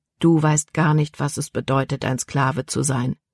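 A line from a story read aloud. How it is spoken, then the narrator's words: Calm answer. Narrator (German): antwortete Caleb ruhig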